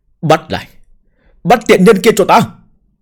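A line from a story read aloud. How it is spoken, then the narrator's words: Sudden angry shout. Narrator (Vietnamese): Đột nhiên giận dữ hết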